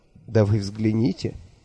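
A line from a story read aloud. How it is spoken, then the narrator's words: Tender, smiling. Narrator (Russian): нежно улыбнулся я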